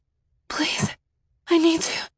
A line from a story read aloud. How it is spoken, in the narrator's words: I gasped